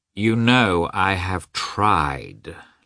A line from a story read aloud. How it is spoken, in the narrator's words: Lievin replied slowly and reluctantly